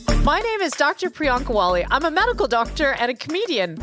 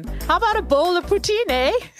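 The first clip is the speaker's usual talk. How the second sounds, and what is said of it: Put-on Canadian accent. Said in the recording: “what's up with the Canadian talk, eh?”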